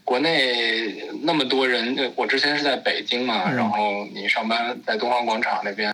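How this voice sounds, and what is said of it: Beijing accent, distinctive speech rhythm. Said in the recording (Chinese): “你说话这北京口音，我一开始就听出来了，…尤其是这说话的节奏感。”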